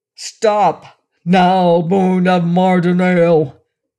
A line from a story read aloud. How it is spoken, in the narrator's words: Sedan thundered, in the Mardonalian tongue, at the top of his powerful voice